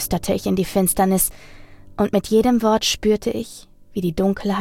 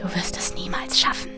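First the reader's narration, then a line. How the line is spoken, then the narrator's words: Whisper in ear. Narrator (German): flüsterte eine Stimme in mein Ohr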